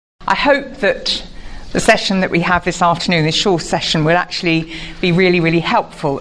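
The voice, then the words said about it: Posh British accent. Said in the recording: “my incredibly posh accent ... I'm from the UK”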